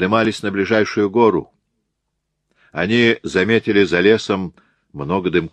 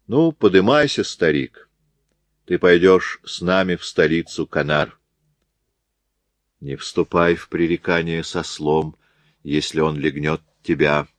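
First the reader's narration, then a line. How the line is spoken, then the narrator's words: Calm. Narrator (Russian): проговорил спокойно Софер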